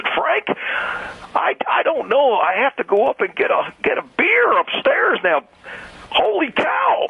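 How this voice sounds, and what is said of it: Bad imitation of another person's voice. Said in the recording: “Was that supposed to be an impression of Harry Carey? ... it was horrible. ... It's a pretty bad impression. ... It was terrible. ... Harry Carey or Barney Fife?”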